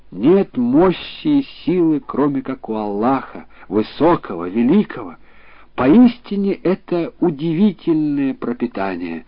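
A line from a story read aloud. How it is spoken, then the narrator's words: Sorrowful exclamation. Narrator (Russian): рыбак опечалился и воскликнул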